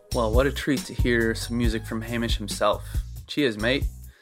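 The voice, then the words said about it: Put-on Australian accent. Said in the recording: “That might be the last time I do an Australian accent. I'm so sorry.”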